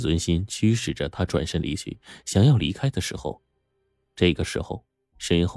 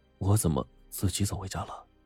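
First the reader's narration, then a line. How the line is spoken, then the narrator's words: Muttering to himself. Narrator (Chinese): 马丁口中喃喃自语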